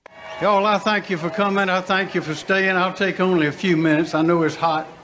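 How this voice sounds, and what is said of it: Southern drawl. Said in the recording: “Southern drawl. ... Boy, he's got a good voice.”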